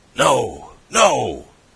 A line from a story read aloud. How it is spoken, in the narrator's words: cried the other